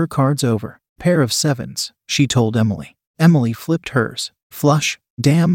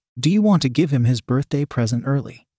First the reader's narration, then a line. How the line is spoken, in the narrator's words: Emily giggled